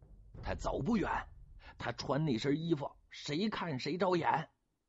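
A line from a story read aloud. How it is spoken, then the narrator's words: Shouting. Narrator (Chinese): 莫继父叫着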